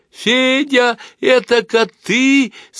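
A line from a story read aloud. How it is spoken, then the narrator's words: Laughing shout. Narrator (Russian): смеясь закричала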